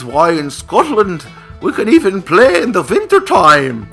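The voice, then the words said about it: Put-on Scottish accent. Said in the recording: “That's a Scottish accent. ... that's the best Scottish accent I've ever heard.”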